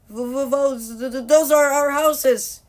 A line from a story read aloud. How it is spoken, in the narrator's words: cried Alex